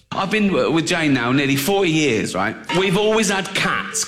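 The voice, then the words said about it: Intense accent. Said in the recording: “The accent made me pass out. ... More intense than I recognize.”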